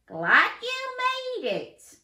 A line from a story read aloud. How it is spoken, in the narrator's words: yelled Coach Carl Chameleon